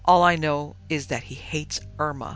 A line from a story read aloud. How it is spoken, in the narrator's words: snapped Miss Paul suddenly